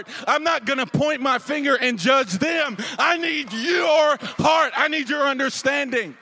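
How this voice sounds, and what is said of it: Yelling preacher. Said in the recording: “I know I'm yelling”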